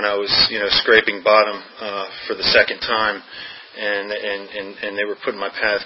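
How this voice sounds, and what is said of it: Connecticut accent, not Southern. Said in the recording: “as you can tell probably from my accent, I'm not from, Virginia. I grew up in Connecticut”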